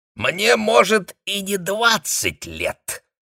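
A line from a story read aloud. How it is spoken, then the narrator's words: Hiss. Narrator (Russian): зашипела соседка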